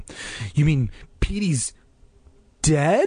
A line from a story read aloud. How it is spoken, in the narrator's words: choked out the words